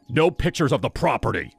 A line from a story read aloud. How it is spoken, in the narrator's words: His tone was sharp